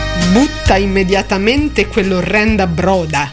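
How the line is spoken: Distant growl. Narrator (Italian): ringhiò da 3 metri di distanza

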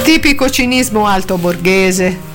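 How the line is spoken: Laughing remark. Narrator (Italian): osservò Angela, ridendo

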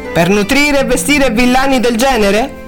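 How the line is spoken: Laughing. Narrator (Italian): Cunningham rise

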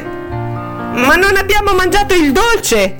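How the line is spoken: Shouted. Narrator (Italian): gridò

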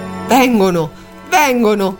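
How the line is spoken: Hushed secretive exclamation. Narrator (Italian): esclamò in sordina, come fosse un grande segreto

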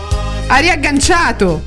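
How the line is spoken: Shouted. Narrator (Italian): gridai

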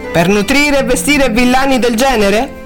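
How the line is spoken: Laughing. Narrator (Italian): Cunningham rise

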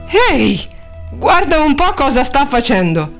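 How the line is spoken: Exclaimed. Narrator (Italian): Mahoney che esclamava

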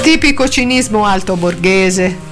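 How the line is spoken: Remarked laughing. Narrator (Italian): osservò Angela, ridendo

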